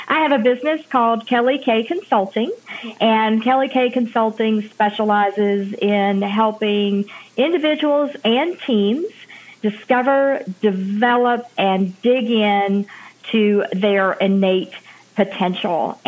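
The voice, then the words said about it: Southern American accent. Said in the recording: “you definitely can hear my southern accent”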